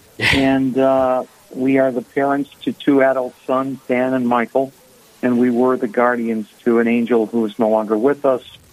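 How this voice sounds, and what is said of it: Boston accent. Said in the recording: “originally from the Boston area. You'll hear that in my accent, I'm sure.”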